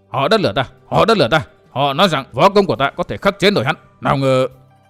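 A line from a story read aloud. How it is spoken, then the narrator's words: Muttering while retreating. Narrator (Vietnamese): Vạn Tông Niên vừa thoái lui vừa lẩm bẩm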